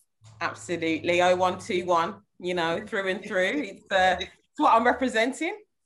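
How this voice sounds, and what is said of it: Birmingham accent. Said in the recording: “I'm hearing that Birmingham accent as well from you”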